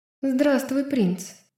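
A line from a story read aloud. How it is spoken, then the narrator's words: Quavering voice. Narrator (Russian): Дрогнувшим голосом ответила она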